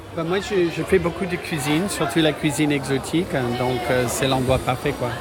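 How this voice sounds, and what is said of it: Slight American accent in French. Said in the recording (French): “un petit accent ... je suis américain”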